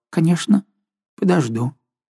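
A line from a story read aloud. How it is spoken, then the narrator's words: Timid frightened old maid. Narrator (Russian): Старая дева подняла испуганные глаза и робко сказала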